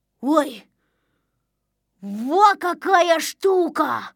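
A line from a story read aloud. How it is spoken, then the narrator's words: Exclaiming. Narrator (Russian): воскликнул он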